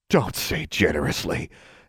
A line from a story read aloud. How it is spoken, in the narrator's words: Alexandra snarled